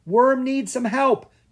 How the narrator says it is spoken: Drake yelled

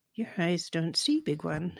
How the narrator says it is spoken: his snake friend said quietly

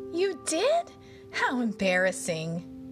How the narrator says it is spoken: exclaimed the bud, who didn't look at all embarrassed

